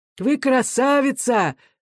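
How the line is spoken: Hoarse shouting. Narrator (Russian): хрипло кричал Егор

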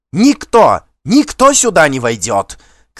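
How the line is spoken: Shouting. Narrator (Russian): кричала она

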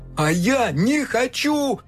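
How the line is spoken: Shouted. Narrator (Russian): закричал

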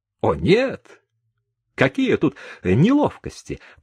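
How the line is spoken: Hasty exclamation. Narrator (Russian): поспешно воскликнул галантный сержант

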